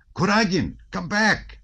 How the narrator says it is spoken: shouted Dolokhov

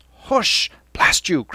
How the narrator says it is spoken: Cranley cried

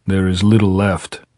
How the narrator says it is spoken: Pablo said sullenly

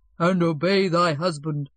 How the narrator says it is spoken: the deacon booms out

